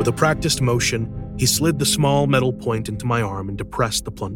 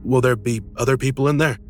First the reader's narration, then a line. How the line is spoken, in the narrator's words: I asked nervously